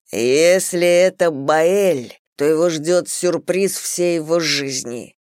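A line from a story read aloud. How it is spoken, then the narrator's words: Growl. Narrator (Russian): прорычал Зейн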